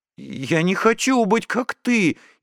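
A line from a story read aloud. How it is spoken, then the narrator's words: Frightened speech. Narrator (Russian): испуганно сказала она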